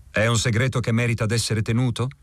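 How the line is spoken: Asking less harshly. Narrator (Italian): domandai in tono meno aspro

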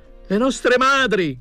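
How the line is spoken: Shouting. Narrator (Italian): gridava

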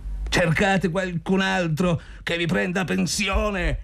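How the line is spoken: Shouting. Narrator (Italian): gridò Zotov

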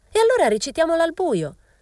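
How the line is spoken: Girl shrieking. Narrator (Italian): strillò una ragazza

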